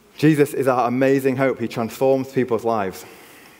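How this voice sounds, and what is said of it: Yorkshire English accent. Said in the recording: “I don't hide my Yorkshire accent”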